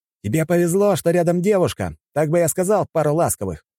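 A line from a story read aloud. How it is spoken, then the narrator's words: Shouted. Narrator (Russian): крикнул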